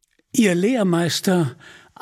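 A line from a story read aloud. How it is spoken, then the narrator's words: Plain. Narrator (German): antwortete Robin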